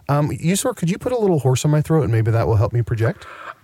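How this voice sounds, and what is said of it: Slightly hoarse voice. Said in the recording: “I hope I'm not losing my voice. I sound a little hoarse.”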